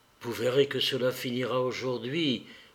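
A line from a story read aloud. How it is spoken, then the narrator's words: Low voice. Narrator (French): dit Marie Nikolaïevna à voix basse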